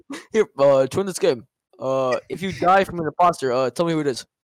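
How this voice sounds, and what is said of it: Imitates another person's voice. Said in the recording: “bad Obama impression”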